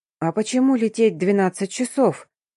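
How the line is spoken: Asking while eating. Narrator (Russian): Доедая пирожное, спросила Дарина

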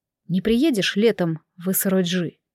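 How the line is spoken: Plain. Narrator (Russian): спросил Сэ

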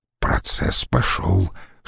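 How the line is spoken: Whispered. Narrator (Russian): шепнул Катону Бибул

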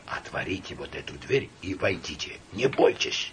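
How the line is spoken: Whisper after heavy breath. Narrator (Russian): тяжело перевел дух и сказал шепотом

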